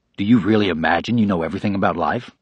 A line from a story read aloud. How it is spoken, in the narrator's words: The answer came in the same cool, confident tone